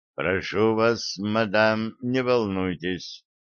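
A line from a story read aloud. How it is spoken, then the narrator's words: Flat colorless voice. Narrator (Russian): сказал Хинкль бесцветным голосом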